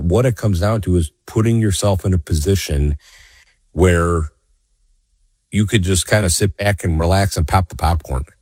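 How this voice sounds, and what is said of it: Scratchy, hoarse voice. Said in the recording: “my voice may be a little scratchy today”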